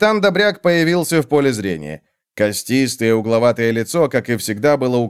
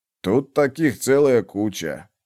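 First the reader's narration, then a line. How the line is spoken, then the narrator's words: Departing healer muttering. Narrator (Russian): пробормотал уходящий целитель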